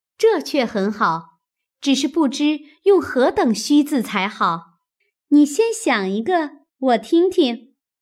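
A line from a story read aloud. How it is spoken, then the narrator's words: Laughing. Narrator (Chinese): 湘云笑道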